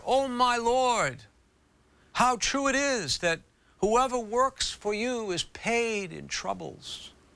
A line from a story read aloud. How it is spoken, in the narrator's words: She once cried out in prayer